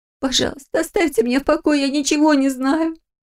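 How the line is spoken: Tearful plea. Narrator (Russian): сквозь слезы попросила она

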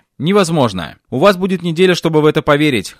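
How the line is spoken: Snorted. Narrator (Russian): хмыкнул я

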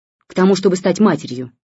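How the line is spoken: Irritated woman. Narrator (Russian): раздраженно сказала она

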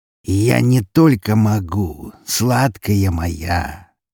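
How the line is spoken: Slow. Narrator (Russian): медленно произнес он

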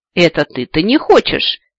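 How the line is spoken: Unladylike snort. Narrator (Russian): совсем не аристократично фыркнула леди Арвиши

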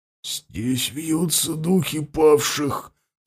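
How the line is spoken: Strained, choked voice. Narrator (Russian): сдавленным голосом ответил Андема

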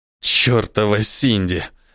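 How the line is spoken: Angry growl. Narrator (Russian): прорычал Неэль

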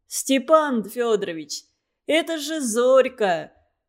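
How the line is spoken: Laughing speech. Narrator (Russian): все еще смеясь сказал он

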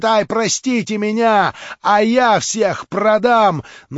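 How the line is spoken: Frightened shout. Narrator (Russian): Из страха всегда найдется дурак, который в последнюю минуту побежит и закричит

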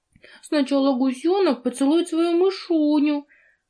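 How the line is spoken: Babbling. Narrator (Russian): пролепетал он

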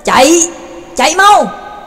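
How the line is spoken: Hurried shout. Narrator (Vietnamese): Pháp sư A-la vội hét lên

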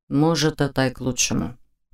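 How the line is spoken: Resigned muttering. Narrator (Russian): пробормотал он себе под нос, обреченно

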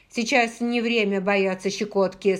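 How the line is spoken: Angry. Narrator (Russian): сказала я сердито

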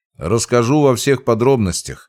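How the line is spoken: Wry grunt. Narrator (Russian): хмыкнул я

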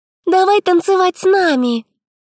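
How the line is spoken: Squeaky girls' chorus. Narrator (Russian): Хором пропищали девчонки

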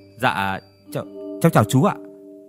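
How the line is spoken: Flustered, stammering question. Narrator (Vietnamese): Luống cuống bước vào trụ sở công an, tôi gãi đầu gãi tai ấp úng hỏi

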